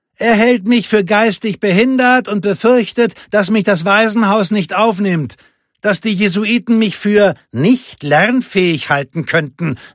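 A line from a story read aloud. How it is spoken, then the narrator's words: Calling out. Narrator (German): rief Lupe ihrem Bruder zu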